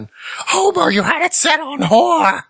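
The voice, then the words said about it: Hoarse raspy cartoon character impression. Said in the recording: “worst Marge Simpson impression ... hoarse and raspy and sounded terrible”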